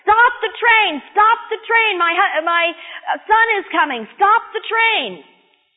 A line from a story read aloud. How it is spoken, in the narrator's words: screaming at the train dispatcher